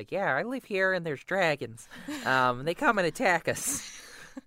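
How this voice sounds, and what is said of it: Weak Jay Baruchel impression. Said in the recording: “That was my Jay Baruchel. It's not very good”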